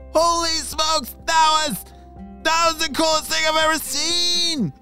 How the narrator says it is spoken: shouted Dominic

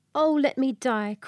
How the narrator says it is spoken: cried she

